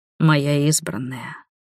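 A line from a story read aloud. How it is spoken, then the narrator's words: Deep velvety powerful whisper. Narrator (Russian): прошептал первородный глубоким бархатистым голосом, полным такой скрытой силы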